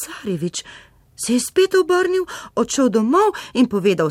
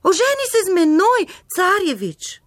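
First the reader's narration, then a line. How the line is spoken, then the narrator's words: Frog calling out. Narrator (Slovenian): žaba zaklicala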